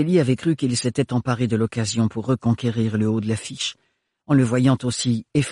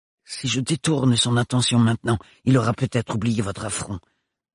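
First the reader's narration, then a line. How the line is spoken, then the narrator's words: Old man grumbling. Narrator (French): grommela le vieil Éric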